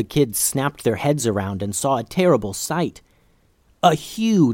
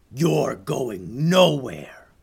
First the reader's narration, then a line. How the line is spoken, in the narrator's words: there was a low growl, and an angry voice said